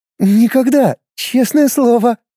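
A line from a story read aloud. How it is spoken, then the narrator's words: Laughing. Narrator (Russian): рассмеялась Нино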